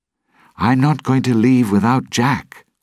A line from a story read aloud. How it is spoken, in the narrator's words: Will said